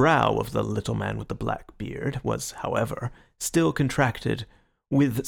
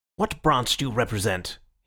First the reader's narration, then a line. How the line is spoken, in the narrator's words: he asked sharply